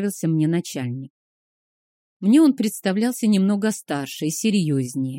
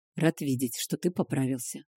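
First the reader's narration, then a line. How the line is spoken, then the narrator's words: Quiet. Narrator (Russian): тихо Варлен сказал Кейхару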